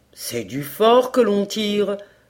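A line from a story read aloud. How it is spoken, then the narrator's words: Hunter exclaiming. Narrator (French): s'écria le chasseur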